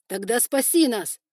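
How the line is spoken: Cried out. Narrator (Russian): вскрикнул Тигран

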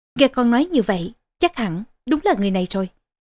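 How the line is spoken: Relieved, smiling queen. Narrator (Vietnamese): Vương hậu thở phào một tiếng, mỉm cười nói

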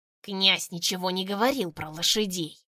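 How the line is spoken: Hissed. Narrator (Russian): прошипел первый

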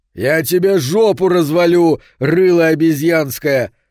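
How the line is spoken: Angry yell. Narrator (Russian): заорал Соломон

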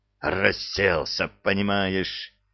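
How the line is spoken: Growled by a lieutenant. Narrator (Russian): зарычал лейтенант

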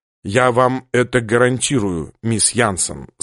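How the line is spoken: Plain. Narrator (Russian): сказал капитан

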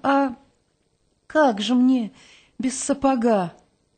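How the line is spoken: Sighing timid question. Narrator (Russian): Четвертак вздохнула, спросила несмело

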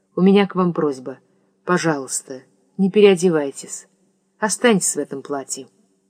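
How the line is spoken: Quiet hurried secretive. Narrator (Russian): сказал негромко и торопливо, точно таясь от Грессы

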